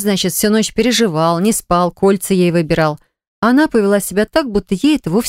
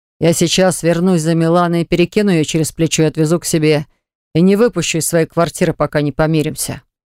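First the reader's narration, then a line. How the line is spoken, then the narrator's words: Deep bass voice. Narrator (Russian): пробасил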